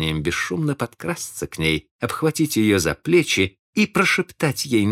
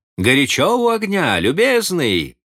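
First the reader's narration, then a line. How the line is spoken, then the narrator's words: Sudden shout. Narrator (Russian): внезапно крикнул стеклодуву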